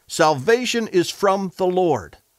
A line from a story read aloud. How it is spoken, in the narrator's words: Jonah finally got it and cried out from the fish